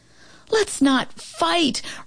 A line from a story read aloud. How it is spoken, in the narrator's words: Romeo pleaded with Turbo